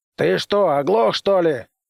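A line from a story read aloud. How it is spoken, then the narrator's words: Shouted. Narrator (Russian): закричал генерал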